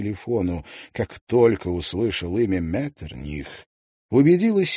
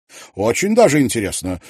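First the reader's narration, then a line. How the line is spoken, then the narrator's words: Exclaiming. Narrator (Russian): воскликнула Сильвия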